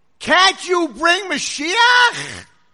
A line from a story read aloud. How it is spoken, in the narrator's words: Scream